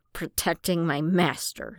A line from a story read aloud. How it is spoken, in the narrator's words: Ace snapped without missing a beat